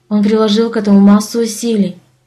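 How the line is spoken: Soft, happy. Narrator (Russian): мягко произнесла Даша, и лицо ее засветилось счастьем

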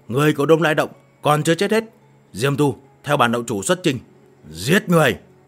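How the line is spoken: Roaring. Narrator (Vietnamese): Hắn gầm lên

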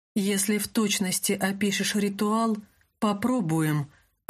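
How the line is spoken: Plain. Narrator (Russian): ответил Люк

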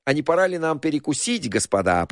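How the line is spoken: Cheerful suggestion. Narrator (Russian): предложил лекарь, радостно

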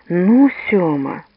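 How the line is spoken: Sighing. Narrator (Russian): Лукашин вздохнул

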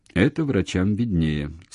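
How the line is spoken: Calm remark. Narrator (Russian): спокойно заметил он

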